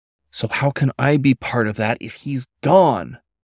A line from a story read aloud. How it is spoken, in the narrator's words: Paul snapped